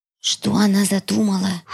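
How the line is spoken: Whispered question. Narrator (Russian): шепотом спросила Мила

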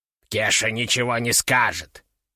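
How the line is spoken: Grumbling. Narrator (Russian): пробурчал он

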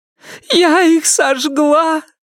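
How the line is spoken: Sobbed, muffled into chest. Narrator (Russian): прорыдала Салли в мокрый бюст Ирен

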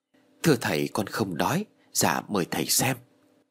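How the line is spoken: Soft reply. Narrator (Vietnamese): Duy liền khẽ đáp

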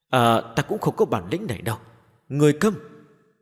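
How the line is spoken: Sighing. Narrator (Vietnamese): Người què thở dài

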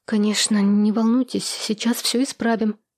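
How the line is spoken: Frightened mumble. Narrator (Russian): испуганно пробормотала Надежда

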